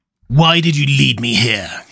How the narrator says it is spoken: snarled

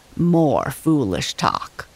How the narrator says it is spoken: scoffed the fallen tree

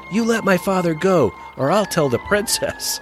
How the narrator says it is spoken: Will shouts

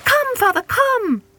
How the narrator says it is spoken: cried all the little birds

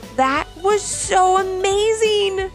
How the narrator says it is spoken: they all exclaimed

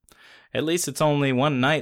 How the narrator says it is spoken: says Sully

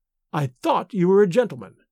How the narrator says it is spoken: she exclaimed with a withering emphasis

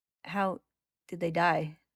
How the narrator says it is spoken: Ed asks hesitantly

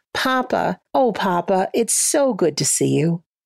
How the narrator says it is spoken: She laughed and she called out

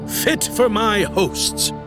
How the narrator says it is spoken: he boomed

